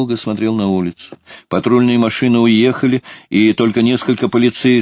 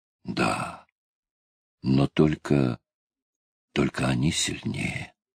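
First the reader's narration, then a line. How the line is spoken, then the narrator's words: Barely audible. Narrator (Russian): повторил Куч едва слышно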